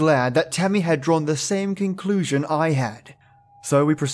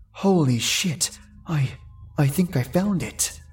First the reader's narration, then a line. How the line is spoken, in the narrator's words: mumbled quietly yet excitedly, half trapped in a maze of thought